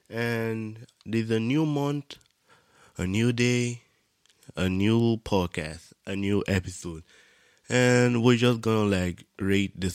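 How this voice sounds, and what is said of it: Congested, rough voice. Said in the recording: “I had like a cold or whatever, like my nose was running ... that's why my voice is a little fucked right now”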